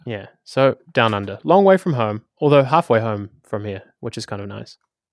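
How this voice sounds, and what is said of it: New Zealand accent. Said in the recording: “I come from Wellington, New Zealand, hence the Taika Waititi accent ... hence the accent”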